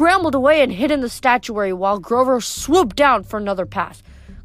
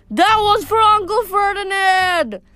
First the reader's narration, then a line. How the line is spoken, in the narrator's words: Grover yelled back